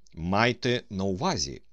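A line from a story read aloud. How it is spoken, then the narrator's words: Stern commanding. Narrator (Ukrainian): сказав Остап, суворо оглядаючи своє військо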